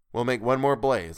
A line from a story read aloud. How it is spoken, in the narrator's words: I said firmly